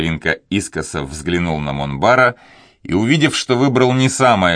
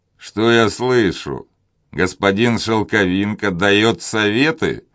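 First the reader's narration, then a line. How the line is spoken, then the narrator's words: Laughing. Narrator (Russian): засмеялся Филипп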